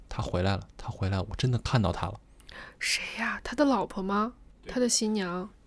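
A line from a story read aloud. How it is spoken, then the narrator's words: Frightened muttering. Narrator (Chinese): 新郎一脸惨白的模样，嘴里还喃喃自语道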